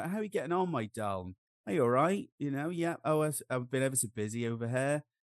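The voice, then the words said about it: Rural English country accent. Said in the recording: “it's a very country English country accent ... Just go straight back into my home accent”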